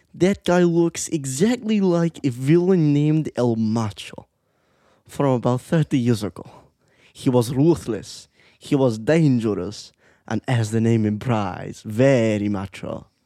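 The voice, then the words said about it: Imitates the cartoon villain Gru. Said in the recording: “let's hear your Gru, though, because it sounds so similar ... I have to do a Gru impression.”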